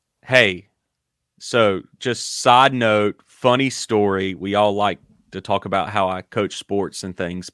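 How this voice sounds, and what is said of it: Southern US Dillon accent. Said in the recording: “that's just the Dylan accent.”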